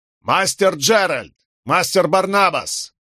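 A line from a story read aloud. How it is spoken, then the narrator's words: Shout. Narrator (Russian): крикнул Локвуд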